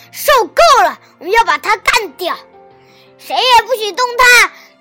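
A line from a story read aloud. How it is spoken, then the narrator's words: Child shouting. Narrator (Chinese): 小胖墩儿喊道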